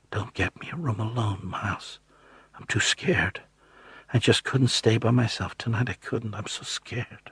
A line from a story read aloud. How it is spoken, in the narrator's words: Becky leaned toward me and whispered